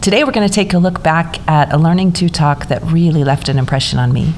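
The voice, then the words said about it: Froggy, congested voice from cold. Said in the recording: “apologize for my voice today. I have a cold, so this is not how my voice usually sounds. It's usually not so froggy.”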